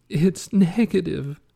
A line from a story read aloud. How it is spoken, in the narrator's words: she sobbed